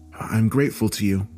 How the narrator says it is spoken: said nervously

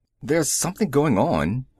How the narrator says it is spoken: a woman passenger said nervously

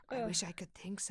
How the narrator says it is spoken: she murmured

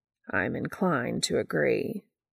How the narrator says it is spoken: Castiel murmurs dryly

